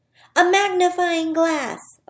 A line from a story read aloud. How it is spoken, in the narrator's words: Owen shouted